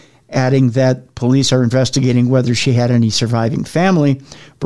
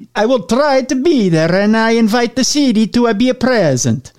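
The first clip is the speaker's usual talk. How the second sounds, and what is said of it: Put-on Italian accent, Mario-like. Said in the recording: “I could do it in the Italian accent ... that was like a cross between Mario and the Pope.”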